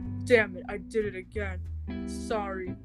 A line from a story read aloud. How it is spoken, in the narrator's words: chuckled